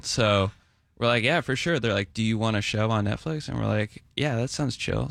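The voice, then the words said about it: Laid-back West Coast surfer voice. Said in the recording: “you sound like a surfer dude from the totally. West Coast”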